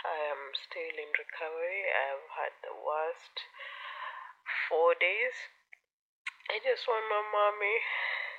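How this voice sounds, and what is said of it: Hoarse, slightly off voice. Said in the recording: “forgive my voice if it sounds a bit hoarse or it sounds a bit off... I had a throat infection”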